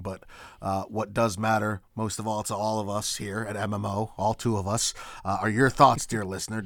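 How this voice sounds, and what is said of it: Unusual, not regular voice. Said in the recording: “this tone of voice, because it is not my usual ... hope I'll have a regular voice”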